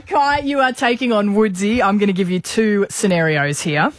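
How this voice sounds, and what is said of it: Put-on Canadian accent. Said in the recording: “Excuse my Canadian accent. ... that's my Canadian accent.”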